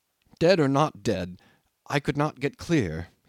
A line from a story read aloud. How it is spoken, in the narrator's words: said